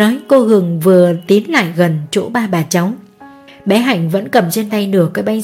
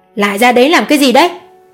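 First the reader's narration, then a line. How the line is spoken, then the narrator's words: Shrill woman's voice. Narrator (Vietnamese): giọng cô Hường vang lên the thé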